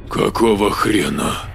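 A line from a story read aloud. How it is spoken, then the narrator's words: Exhaled. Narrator (Russian): выдохнул Маркус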